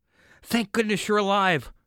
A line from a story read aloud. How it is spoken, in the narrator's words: Her voice was shaky